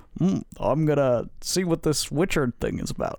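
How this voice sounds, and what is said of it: Imitates another person's voice. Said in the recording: “Why is he Bill Clinton? ... That wasn't a bad impersonation. ... I thought it was Bill Clinton.”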